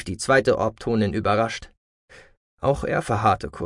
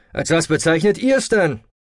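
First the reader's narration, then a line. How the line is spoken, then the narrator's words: Mechanic calling out. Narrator (German): rief ein Monteur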